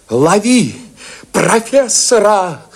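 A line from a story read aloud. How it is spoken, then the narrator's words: Shrieked. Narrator (Russian): Взвизгнул Иванов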